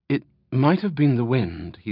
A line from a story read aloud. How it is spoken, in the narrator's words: he said finally, his voice hushed and filled with doubt